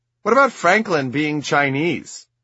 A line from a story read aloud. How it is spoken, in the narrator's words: I blurt